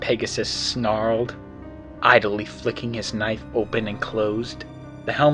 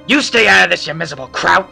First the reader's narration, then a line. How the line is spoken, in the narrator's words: the helmeted Earth pony roared, a crazed look in his eyes